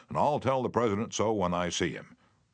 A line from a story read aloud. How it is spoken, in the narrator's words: Roosevelt boomed